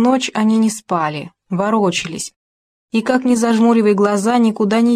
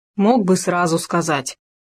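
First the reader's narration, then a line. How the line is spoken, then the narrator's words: Grumbling. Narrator (Russian): пробурчал Хома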